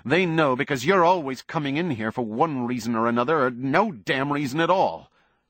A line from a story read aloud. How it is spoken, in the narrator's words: Buckman said harshly